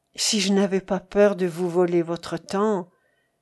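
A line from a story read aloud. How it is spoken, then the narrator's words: Sighing. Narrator (French): avec un soupir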